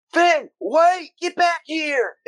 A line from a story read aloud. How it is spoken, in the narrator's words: Sam yell